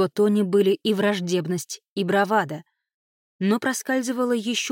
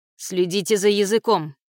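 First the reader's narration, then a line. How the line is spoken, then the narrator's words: Barking. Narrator (Russian): рявкнула на него Беннет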